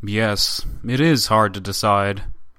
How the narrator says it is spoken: the up-to-now silent Tatischev, who added gravely

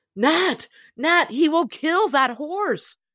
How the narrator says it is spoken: Jonathan exclaimed

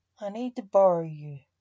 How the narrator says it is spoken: said Max

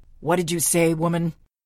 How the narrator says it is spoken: I shouted this time, hoping to penetrate the restaurant sound barrier

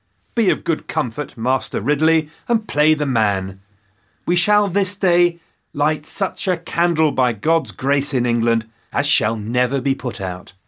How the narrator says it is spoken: Latimer called out to his friend

